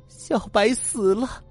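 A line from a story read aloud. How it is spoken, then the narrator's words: Trembling, bursting into tears. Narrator (Chinese): 他哆嗦了半天，才突然哭出来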